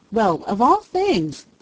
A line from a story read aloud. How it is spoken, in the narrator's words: cried Peter